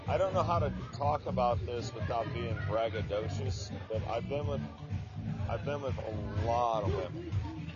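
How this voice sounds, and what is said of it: American accent. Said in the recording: “you sound like you could possibly be from America”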